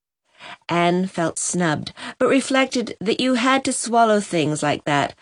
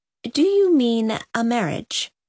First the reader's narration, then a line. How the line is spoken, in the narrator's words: said Mrs